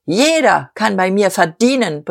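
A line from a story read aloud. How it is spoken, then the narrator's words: Forceful roaring. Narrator (German): brüllte Diederich mit unverminderter Gewalt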